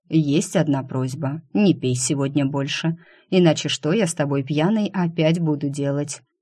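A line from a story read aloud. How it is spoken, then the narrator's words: Perfectly calm. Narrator (Russian): Совершенно спокойно заявил тот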